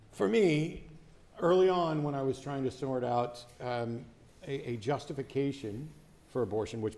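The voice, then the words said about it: Strained, fading voice. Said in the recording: “I'm already losing my voice”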